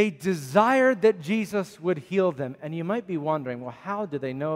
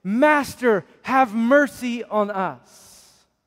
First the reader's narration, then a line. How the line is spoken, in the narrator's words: They yelled out, and it must have been in a loud voice